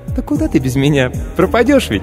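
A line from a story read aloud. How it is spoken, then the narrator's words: Squeaky voice. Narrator (Russian): Пискнула автоклав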